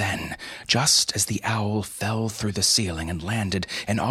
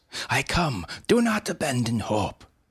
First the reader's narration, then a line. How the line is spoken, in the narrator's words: a voice shouted from the stairs